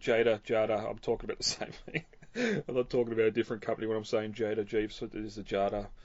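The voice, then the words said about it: Australian accent. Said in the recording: “my Australian accent ... It's just different pronunciation of the A's.”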